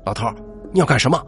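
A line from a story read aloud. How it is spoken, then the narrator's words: Roaring shout. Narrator (Chinese): 大吼一声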